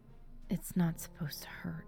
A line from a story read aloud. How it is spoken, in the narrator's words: whisper